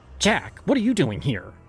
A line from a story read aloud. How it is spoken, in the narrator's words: She snapped, her voice carrying the sharpness of someone who no longer cared to hide their disdain